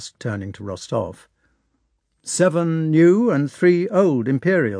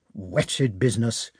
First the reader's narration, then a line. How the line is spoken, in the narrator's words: he muttered to himself